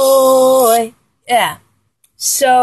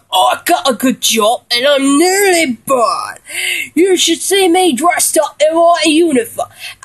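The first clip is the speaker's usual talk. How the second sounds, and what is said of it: Attempted gruff English accent, sounds Australian. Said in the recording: “I can't do that accent. I can't do a gruff English accent. It just makes me sound like I'm Australian.”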